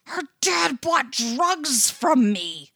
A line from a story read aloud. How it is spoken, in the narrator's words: he hisses, all big wet eyes and imploring frown